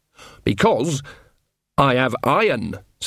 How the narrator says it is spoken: said Nanny, her voice suddenly sharp

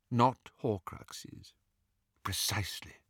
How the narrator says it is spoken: murmured Dumbledore

